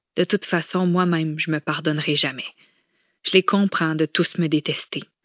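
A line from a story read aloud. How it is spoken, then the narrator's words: Tearful murmur. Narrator (French): murmura-t-elle en laissant enfin couler les larmes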